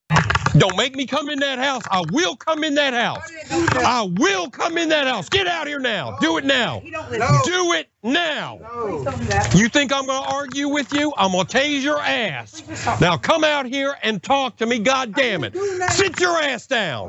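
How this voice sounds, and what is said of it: Angry yelling. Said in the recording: “Why are you yelling?”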